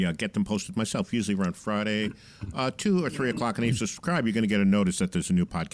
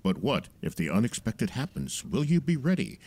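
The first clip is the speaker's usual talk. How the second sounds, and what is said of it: Dramatic announcer-style voice. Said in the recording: “That's my dramatic voice ... that dramatic voice”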